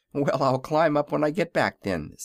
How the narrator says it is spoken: said the boy with a laugh

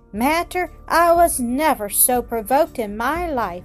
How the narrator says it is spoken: cried Mrs

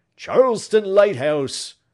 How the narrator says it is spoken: Crockston ... he cried

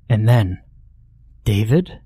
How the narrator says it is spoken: I breathed aloud

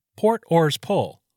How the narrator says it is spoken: The boat's coxswain shouted

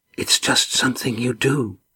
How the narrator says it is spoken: whispered

